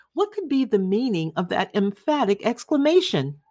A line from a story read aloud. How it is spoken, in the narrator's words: cried he